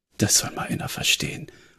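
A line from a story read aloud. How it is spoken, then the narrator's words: Muttered to himself. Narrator (German): murmelte Jonah, vermutlich mehr zu sich selbst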